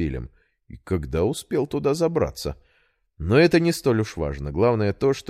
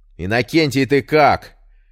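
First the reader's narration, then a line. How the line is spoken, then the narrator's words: Shouted. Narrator (Russian): выкрикнул Петр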